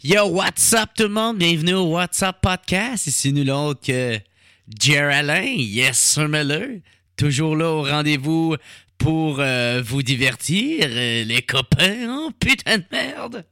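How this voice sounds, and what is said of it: Exaggerated put-on accent. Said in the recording (French): “À chaque fois, je prends tout le temps ce style d'accent-là.”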